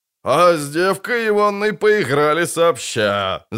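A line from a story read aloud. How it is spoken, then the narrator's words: Fat man guffawing. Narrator (Russian): захохотал толстяк с чубом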